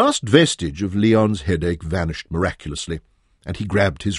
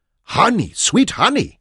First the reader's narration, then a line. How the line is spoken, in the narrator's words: Loikot shouted